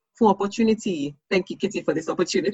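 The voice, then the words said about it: Nigerian accent. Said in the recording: “You just spoke it in a Nigerian accent at the end”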